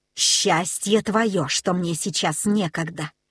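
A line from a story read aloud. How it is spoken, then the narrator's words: Hissing. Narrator (Russian): прошипел Смирра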